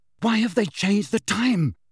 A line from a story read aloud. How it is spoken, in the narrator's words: Harry said breathlessly as they hurtled past the Auror cubicles